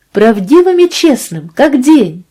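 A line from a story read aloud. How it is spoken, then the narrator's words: Impatient exclamation. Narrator (Russian): воскликнула она с нетерпением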